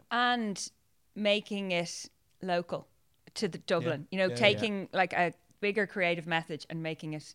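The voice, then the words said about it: Southside Dublin Irish accent. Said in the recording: “I'm from Dublin, as people slag me for my Southside accent all the time”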